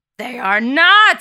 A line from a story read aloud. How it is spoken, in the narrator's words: yells Nikos